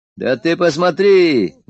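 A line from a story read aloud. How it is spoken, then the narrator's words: Loud, abruptly cut off. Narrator (Russian): громко сказал Егор и осекся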